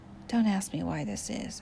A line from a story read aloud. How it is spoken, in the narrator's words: said